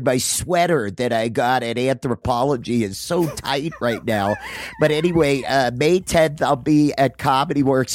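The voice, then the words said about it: Impression of Adam Caton Holland. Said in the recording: “Can I play Adam? ... do like a little Adam type thing ... my like really cool impression of him”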